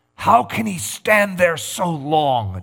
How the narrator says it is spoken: Nelimo gasped

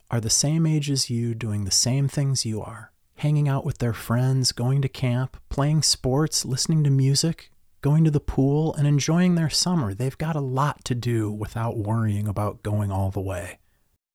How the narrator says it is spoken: started softly

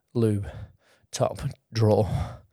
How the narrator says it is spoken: he panted

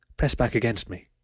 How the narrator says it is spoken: muttered into the fox's ear

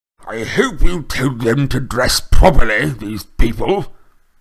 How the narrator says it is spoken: he snarled at once

